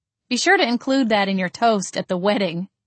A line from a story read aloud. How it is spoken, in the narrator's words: I chuckled